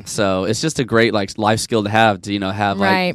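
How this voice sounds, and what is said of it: Texan accent. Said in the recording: “I'm from Dallas, Texas. ... That accent.”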